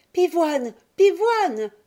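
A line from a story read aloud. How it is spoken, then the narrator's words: Calling across a garden. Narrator (French): criait Violette à son frère d'un bout à l'autre du jardin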